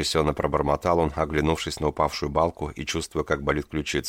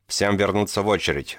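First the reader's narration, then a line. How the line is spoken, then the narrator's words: Guards barking. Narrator (Russian): рявкнули охранники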